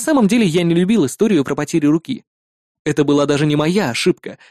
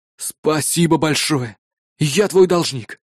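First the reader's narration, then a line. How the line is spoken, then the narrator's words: Relieved exhale. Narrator (Russian): С облегчением выдохнул он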